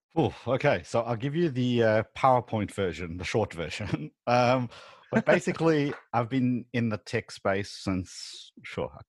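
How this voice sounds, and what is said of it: Slight South African accent. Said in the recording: “obviously you're from South Africa ... you can kind of hear it in your voice a little bit”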